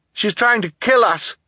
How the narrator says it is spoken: Klaus shouted to the audience

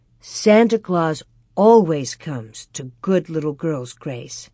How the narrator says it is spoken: Ma said firmly

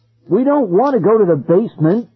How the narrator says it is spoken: Ben cried

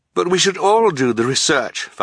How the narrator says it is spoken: Violet cried

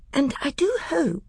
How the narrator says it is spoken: said Lucy in a tremulous voice

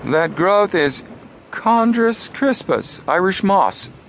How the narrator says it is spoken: Frank exclaimed

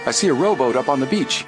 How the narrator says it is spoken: Suddenly Frank cried out

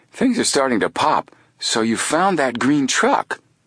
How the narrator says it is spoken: Chet exclaimed

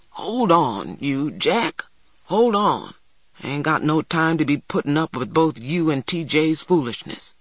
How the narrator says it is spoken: Big Ma grumbled

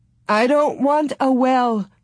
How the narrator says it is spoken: Ma sobbed

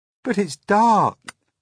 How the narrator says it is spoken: cried James

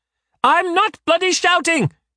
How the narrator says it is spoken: shouts

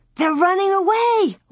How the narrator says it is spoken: Laura cried out

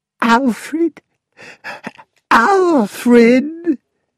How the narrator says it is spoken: she gasped

